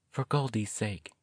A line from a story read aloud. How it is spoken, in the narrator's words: she whispered to herself